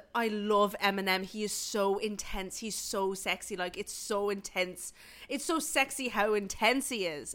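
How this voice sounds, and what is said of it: Put-on Irish accent. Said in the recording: “tell this in an Irish accent”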